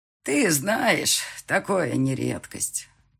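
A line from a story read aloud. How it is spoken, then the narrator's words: Old woman sighing. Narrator (Russian): вздохнула бабуля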